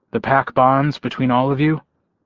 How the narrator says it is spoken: Gordo sighed

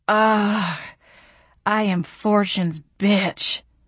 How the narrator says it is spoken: moaned

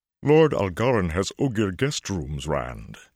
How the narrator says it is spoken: he boomed in a voice like a deep drum

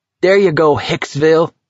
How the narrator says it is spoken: Collie shouted

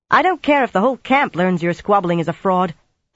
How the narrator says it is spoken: Egwene broke in sharply

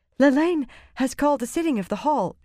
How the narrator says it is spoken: she said breathlessly

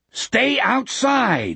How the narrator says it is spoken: roared into it

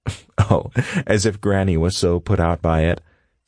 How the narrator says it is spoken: Shelley says with a chuckle

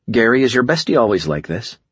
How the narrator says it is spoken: I sighed

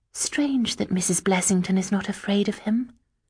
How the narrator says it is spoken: I said in a low, distracted voice

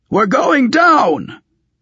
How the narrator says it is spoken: one of the Torques shouted in his barbaric eastern gabble

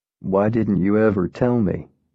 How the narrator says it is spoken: asked, his voice soft

